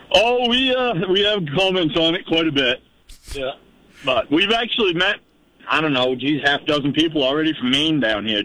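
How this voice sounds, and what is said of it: Down East Maine accent. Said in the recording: “you got a real old line accent ... You got a down east accent”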